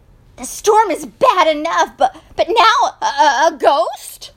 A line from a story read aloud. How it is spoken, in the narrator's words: over the hiss of the wind and the boom of the waves and the cries of the men came a voice they knew